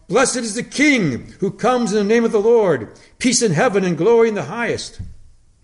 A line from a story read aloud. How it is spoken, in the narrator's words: the people cried out